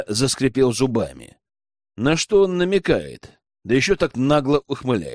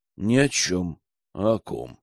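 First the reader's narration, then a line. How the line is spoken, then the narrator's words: Thoughtful drawl. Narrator (Russian): задумчиво протянул он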